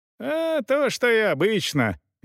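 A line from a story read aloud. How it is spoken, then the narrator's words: Cheerful peasant man. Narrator (Russian): весело отвечал один из дворовых мужиков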